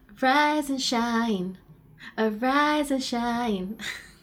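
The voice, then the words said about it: Imitates another person's voice. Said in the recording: “my impersonation, my impression”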